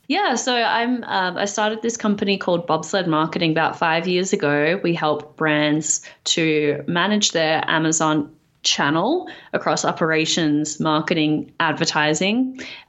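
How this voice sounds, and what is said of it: Slightly Australian, part-American accent. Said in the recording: “you sound slightly Australian ... New York/Australian accent ... my family thinks I sound slightly American”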